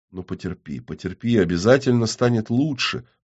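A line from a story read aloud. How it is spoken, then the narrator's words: Muttered. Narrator (Russian): бормоча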